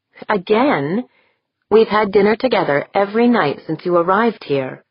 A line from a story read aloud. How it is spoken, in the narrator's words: Deirdre said